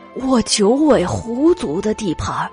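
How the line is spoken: Sighing, worried. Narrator (Chinese): 老狐王叹了一口气，发愁

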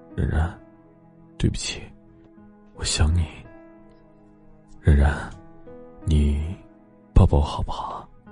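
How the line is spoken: Soft tender murmur. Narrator (Chinese): 莫千行低声温柔呢喃

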